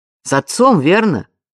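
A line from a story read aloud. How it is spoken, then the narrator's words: Loud question. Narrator (Russian): громко спросил он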